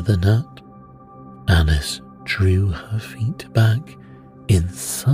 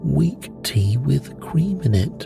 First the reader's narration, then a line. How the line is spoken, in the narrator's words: said the gnat